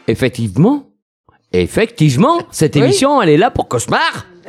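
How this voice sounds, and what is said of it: Put-on Antillean French accent. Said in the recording (French): “J'adore ton accent antillais. ... T'as vu, je l'ai travaillé.”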